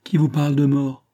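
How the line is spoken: Glassmaker exclaiming. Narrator (French): s'écria le verrier

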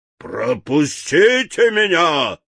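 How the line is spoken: Lion's bark. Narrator (Russian): рявкнул лев

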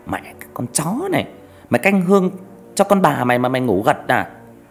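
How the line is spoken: Shrill shout. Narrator (Vietnamese): Nó quát lên the thé

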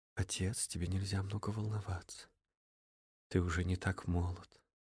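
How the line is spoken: Gentle, caring daughter. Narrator (Russian): напомнила Инесс мягко, как приличная и заботливая дочь

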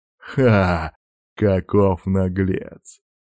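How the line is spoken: Laughing boar. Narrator (Russian): рассмеялся один из вепрей

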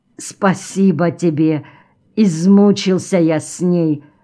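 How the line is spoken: Plain. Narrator (Russian): сказал Артем

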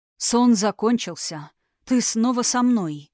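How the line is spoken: Hoarse whisper. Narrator (Russian): хрипло прошептал Тхирайм

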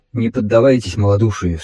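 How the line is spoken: Stern objection. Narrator (Russian): строго возразил Аргмар

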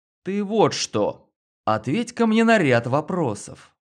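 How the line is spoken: Businesslike confident tone. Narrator (Russian): я произнес деловито уверенным тоном

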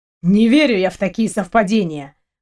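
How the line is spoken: Grumbled. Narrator (Russian): проворчал Дима

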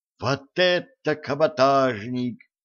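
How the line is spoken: Joyful whoop. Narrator (Russian): радостно ухнул Джим

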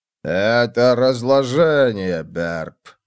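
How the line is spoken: Old man grumbling. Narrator (Russian): ворчал старик

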